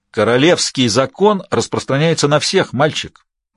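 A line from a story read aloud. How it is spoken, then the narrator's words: Even tone. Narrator (Russian): ответил Альгестиан ровным тоном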